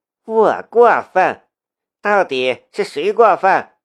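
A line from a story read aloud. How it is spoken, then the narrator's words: Sneering, bitter outburst. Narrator (Chinese): 夏一瑶冷笑着，多年的隐忍此时全部爆发了出来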